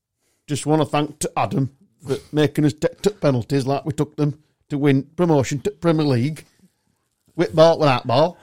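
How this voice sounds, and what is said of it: Imitates a football manager's voice. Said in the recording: “my Sheffield United manager impression”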